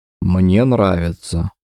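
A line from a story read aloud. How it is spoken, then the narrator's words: Smiling, hollow, breaking voice. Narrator (Russian): произнес он с улыбкой, но голос звучал глухо, ломко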